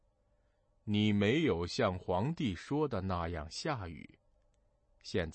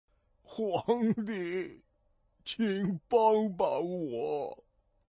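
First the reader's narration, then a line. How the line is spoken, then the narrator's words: Crying. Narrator (Chinese): 龙王哭了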